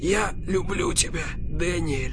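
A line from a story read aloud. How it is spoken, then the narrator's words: Whispered. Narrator (Russian): прошептал Крис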